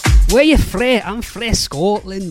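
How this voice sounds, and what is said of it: Poor put-on Scottish accent. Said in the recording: “my Scottish accent. Poor, I know.”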